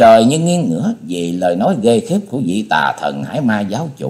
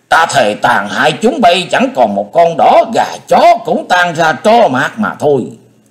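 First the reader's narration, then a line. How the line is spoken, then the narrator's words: Roared. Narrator (Vietnamese): Hải Ma giáo chủ gầm lên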